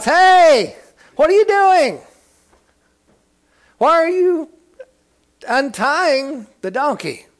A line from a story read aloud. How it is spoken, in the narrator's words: one of them shouts